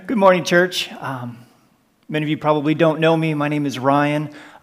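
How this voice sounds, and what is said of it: American accent. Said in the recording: “You can probably tell from my accent that we're originally from the United States”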